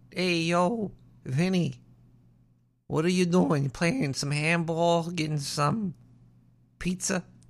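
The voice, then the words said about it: Put-on Brooklyn accent. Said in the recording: “It's hard to have a Brooklyn accent when you're a rat.”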